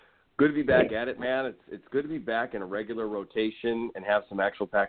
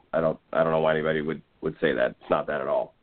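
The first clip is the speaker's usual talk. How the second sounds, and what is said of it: Poor Bill Belichick impression. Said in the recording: “worst Belichick impression”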